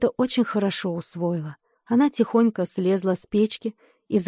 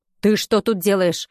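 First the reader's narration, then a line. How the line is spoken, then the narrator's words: Thundering stern, grandmother. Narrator (Russian): прогремел строгий голос бабушки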